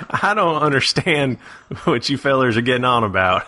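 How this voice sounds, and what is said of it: Put-on Southern accent. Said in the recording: “I like your southern accent. ... it really warms ... me.”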